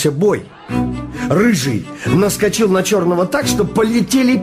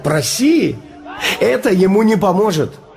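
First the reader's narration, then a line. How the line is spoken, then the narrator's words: Laughing. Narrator (Russian): Я засмеялся и сказал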